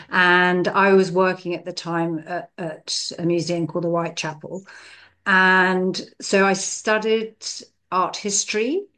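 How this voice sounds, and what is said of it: English accent. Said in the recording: “You can probably tell from my accent, I'm from England”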